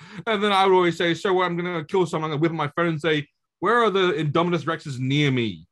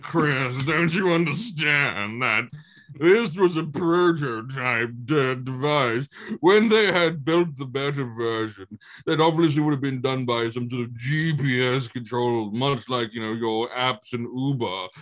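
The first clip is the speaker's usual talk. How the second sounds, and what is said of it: Imitates another person's voice. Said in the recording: “I will put on Jamie's voice when he defends this. ... My best impression”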